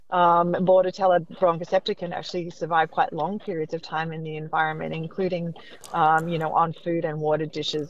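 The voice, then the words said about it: Accent from somewhere else. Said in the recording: “probably from somewhere else way before that. You can tell from the accent.”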